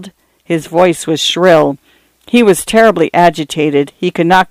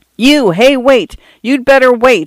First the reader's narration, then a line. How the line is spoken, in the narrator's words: he yelled